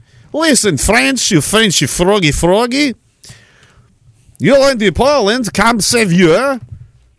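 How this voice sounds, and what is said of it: Put-on Polish accent. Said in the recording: “how do you do a Polish accent? ... come to the Polish accent. It is kind of like that, but different.”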